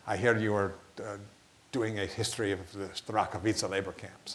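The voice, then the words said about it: Imitated deep accent. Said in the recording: “this deep accent”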